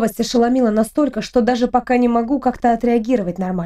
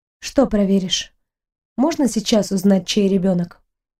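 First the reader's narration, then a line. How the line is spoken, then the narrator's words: Detached and calm. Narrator (Russian): На удивление, говорю достаточно отрешенно и спокойно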